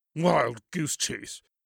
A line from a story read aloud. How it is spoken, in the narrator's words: snorted